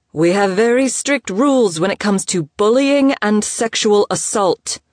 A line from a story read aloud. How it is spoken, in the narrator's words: the woman barked into her microphone